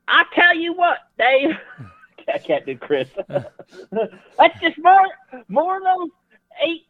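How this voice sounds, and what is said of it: Put-on Southern US accent. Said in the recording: “I found my Southern accent.”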